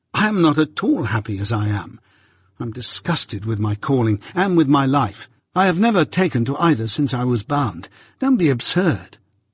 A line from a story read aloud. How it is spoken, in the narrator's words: exclaimed impatiently